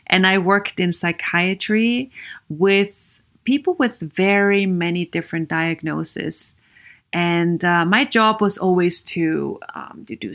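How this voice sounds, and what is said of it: Austrian-accented English. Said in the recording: “I have a bit of an accent. ... I am European. I am Viennese from Austria.”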